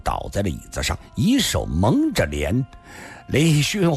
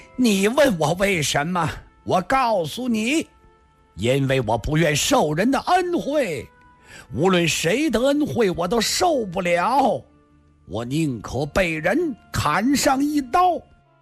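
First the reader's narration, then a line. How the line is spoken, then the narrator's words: Loud. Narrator (Chinese): 孙驼子又突然 大声说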